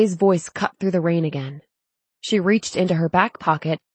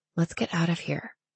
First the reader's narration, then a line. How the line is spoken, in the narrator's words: she said so softly that Zane must not have heard